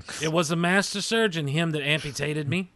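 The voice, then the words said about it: Put-on accent, done badly. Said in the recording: “What kind of accent is that? ... Terrible one.”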